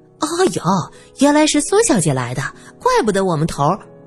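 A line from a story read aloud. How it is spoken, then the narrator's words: Cheerful, smiling. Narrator (Chinese): 小娜笑眯眯的嘴里还说着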